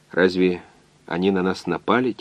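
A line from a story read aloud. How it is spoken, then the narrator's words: Quiet. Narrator (Russian): тихо сказал доктор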